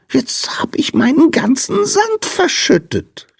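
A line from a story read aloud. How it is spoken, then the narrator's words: Whining. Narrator (German): jammerte der Sandmann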